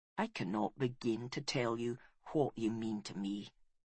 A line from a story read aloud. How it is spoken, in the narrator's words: he whispered